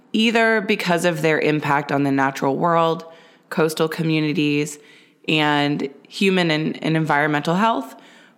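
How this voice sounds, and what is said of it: Slightly hoarse voice. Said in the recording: “My voice might be a little bit hoarse”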